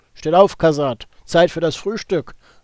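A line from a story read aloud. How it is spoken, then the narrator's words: Calling into room. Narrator (German): rief er in das Zimmer hinein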